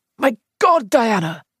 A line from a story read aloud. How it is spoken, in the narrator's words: he cried